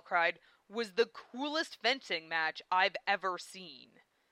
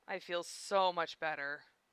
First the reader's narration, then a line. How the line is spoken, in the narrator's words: he sighed, smirk creeping across his face